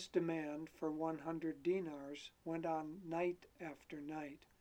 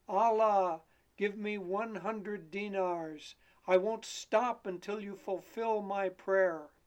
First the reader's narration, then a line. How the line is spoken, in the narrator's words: They heard him bellowing